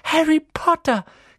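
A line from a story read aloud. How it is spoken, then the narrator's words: Shrieking. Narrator (German): kreischte sie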